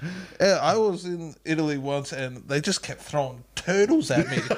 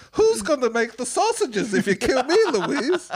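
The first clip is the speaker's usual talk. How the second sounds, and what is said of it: Put-on Italian accent. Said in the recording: “You sound like a baker ... Mamma mia ... doing an Italian accent”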